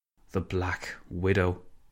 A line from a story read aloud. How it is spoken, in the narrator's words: Cameron sighed